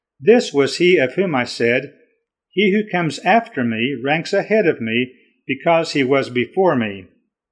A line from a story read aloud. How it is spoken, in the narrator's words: testified to him and cried out